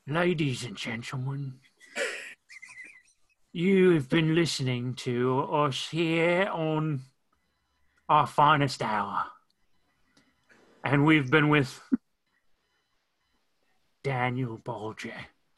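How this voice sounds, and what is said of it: Weak Michael Caine impression. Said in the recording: “outro the show as Michael Caine ... It's not a very good Michael Caine.”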